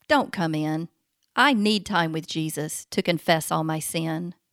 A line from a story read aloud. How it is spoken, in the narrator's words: Mom sighed